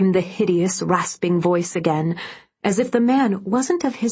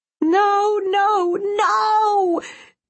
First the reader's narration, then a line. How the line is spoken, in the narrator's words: screamed in defiance